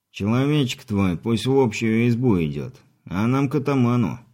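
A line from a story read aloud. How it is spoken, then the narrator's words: Lazy offhand remark. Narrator (Russian): лениво бросил сопровождающий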